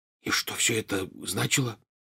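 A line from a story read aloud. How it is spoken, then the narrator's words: Whispered question. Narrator (Russian): шепотом спросил Рон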